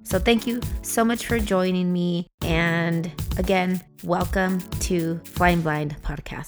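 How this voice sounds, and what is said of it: Slightly hoarse voice. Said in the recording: “getting over a cold ... I have just been hoarse for the last few days. I actually lost my voice for a few days, so I sound a little bit different.”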